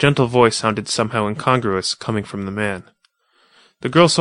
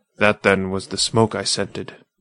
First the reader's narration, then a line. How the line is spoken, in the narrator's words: muttered the man